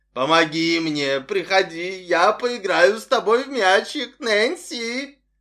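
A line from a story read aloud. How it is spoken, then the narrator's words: Guffawing, gloating in power. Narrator (Russian): Человек снова захохотал, упиваясь своей силой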